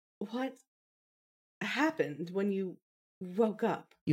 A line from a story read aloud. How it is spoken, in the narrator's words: You asked hesitantly